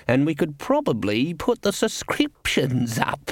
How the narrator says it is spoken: Cleet in his reasonable voice

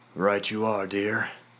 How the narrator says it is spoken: I sighed

